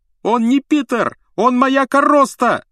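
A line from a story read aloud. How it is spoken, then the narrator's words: Yelling. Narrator (Russian): завопил Рон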